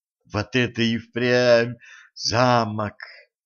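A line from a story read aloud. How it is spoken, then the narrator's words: Admiring drawl. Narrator (Russian): восхищенно протянула Женька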